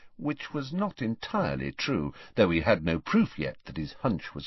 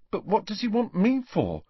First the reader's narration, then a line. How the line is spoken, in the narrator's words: asked Neville nervously, as though he were expecting detention